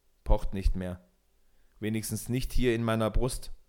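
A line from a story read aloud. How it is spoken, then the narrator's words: Plain. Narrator (German): antwortete Peter Munk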